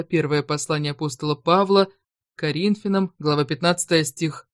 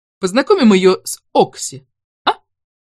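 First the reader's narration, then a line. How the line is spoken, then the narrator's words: Girlish squeal from old woman. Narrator (Russian): дряхлая Беатрикс по-девичьи взвизгнула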